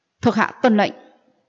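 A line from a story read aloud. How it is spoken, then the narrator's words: Raised voice. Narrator (Vietnamese): Tần Phong cất cao giọng nói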